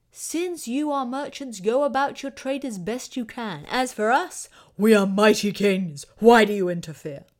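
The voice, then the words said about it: Imitated voice of an ancient king. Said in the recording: “my impersonation of a Mesopotamian king”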